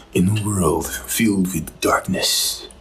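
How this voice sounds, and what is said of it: Deep dramatic movie trailer narrator voice. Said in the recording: “put on my epic trailer voice ... your epic trailer voice”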